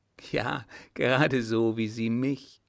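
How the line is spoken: Laughing. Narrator (German): lachte Fritz

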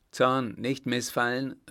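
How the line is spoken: Emperor calling out. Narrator (German): rief der Kaiser

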